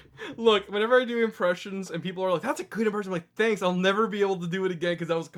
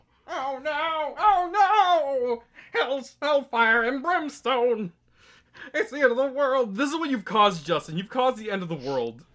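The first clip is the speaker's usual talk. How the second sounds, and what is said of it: Squidward cartoon character voice. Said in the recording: “You've apparently turned him into Squidward, which honestly, very good Squidward impersonation.”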